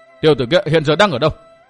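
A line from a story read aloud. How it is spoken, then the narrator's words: Barked question. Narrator (Vietnamese): quát hỏi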